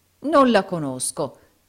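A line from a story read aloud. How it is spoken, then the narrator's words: Exclaimed. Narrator (Italian): esclamò il baronetto Mulberry Hawk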